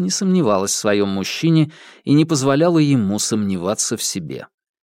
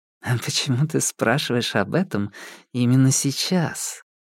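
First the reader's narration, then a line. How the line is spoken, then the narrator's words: Purring reply. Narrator (Russian): промурлыкала в ответ вампиресса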